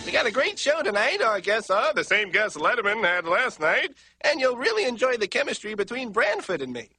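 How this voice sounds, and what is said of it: Weak Jay Leno impression. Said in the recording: “That's not a great impression, but I think that's supposed to be Jay Leno.”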